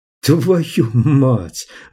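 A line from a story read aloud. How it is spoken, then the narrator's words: Breathless exclamation. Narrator (Russian): выдохнул Клай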